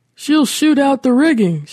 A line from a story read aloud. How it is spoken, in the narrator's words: shouted Curtis